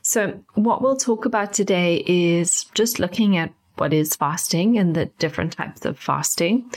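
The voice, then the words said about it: Congested, slightly nasal voice. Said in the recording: “I've got a bit of a cold at the moment ... you may hear me taking some big breaths just because it's a bit difficult breathing through my nose at the moment, and my voice may sound a little bit nasally.”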